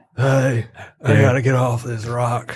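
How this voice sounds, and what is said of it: Nicolas Cage impression. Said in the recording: “You got a good impression of Nick Cage.”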